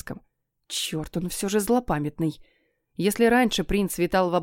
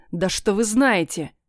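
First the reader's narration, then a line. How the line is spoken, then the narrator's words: Growled, prince. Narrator (Russian): рыкнул принц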